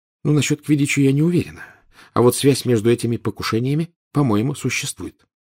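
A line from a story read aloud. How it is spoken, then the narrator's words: Quiet. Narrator (Russian): тихо сказала Гермиона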